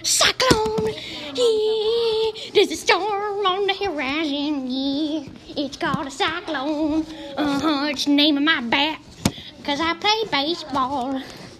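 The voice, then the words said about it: Singing in a southern accent. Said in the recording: “I'm singing in a southern accent.”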